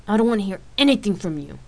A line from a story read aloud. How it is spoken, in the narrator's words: Rain snapped